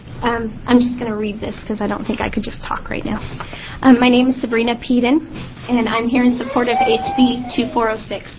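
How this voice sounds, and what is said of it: Congested, strained voice. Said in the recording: “I have a little bit of a cold. I apologize for my voice.”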